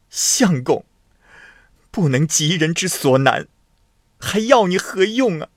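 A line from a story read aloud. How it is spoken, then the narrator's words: Wailing princess. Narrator (Chinese): 公主嚎啕大哭地说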